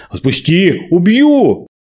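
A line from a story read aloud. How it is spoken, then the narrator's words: Shout. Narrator (Russian): закричал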